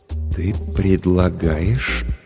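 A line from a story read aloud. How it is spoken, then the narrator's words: Uncertain, tentative. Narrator (Russian): начал Денис неуверенно, словно пробуя слова на вкус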